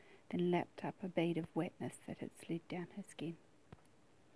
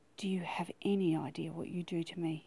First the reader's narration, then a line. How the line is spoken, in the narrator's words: He asked harshly